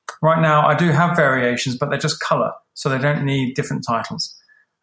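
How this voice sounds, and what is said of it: Speaker with a smart-sounding accent. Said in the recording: “He's got that accent going on. I'm always envious of people with those accents, man. You guys sound smart.”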